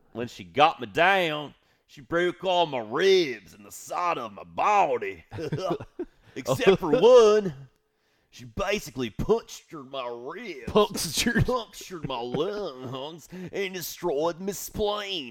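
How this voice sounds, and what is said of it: Mixed British and Southern accent. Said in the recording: “I kind of mixed up the British and Southern accent.”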